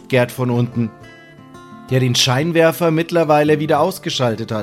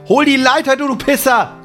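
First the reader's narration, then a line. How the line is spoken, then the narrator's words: Angry yell. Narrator (German): schreit Sam ihn an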